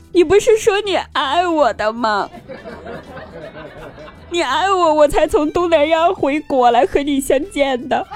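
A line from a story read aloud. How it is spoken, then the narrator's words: Crying. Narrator (Chinese): 被抓的这名诈骗犯呢，最后还哭着说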